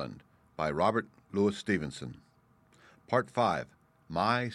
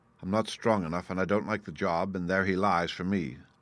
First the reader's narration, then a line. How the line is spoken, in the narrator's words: said I